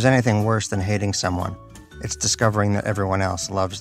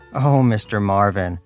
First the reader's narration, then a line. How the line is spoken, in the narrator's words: an attractive female chambermaid cried